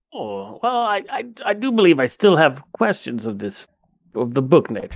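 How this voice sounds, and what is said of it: In-character role-play voice. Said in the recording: “get into that character voice”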